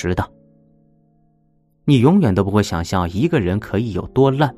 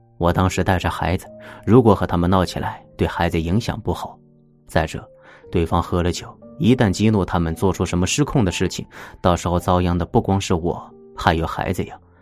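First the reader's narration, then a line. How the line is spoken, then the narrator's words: Smiling. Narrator (Chinese): 他却笑着说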